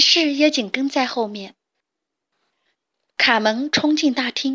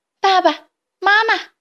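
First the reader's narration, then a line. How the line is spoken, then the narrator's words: Shouting while running. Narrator (Chinese): 边跑边喊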